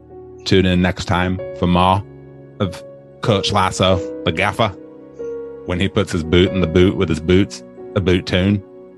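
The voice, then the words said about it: Weak attempt at Jamie Tartt's accent. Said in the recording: “It was not a British accent. ... It was my attempt at Jamie. Jamie's a whole other act. That's a dialect in and of itself.”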